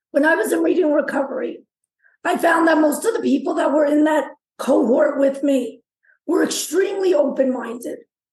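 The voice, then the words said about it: Rough, damaged-sounding voice. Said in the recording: “my voice is a mess.”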